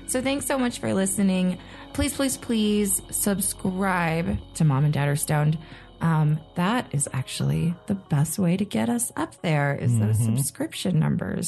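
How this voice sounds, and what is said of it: Nasal, congested voice. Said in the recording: “I'm very nasally right now. ... It's my nose. ... sounding congested.”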